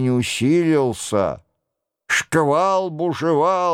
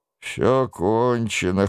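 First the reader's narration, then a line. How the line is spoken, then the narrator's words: Wounded man's hoarse rasp. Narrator (Russian): хрипел раненый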